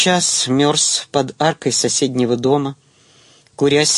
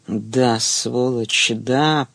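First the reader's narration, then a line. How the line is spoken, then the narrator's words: Whispered. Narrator (Russian): прошептал он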